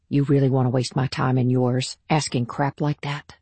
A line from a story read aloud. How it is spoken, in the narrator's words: she said in a low, even voice